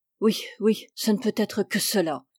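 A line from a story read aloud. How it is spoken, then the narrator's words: Annoyed murmur. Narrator (French): murmura, visiblement ennuyé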